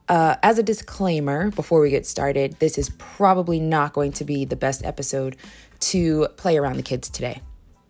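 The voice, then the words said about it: Strained, worn-out voice. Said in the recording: “Excuse my voice. I was screaming and hollering yesterday”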